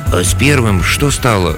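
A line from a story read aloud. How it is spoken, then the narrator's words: Timid question from peasant. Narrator (Russian): робко поинтересовался один из крестьян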